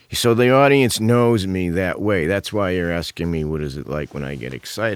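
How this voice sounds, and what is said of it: Flat monotone deadpan delivery. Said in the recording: “I talk in a monotone anyway ... my deadpan”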